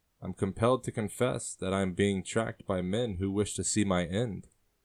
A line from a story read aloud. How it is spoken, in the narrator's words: he says calmly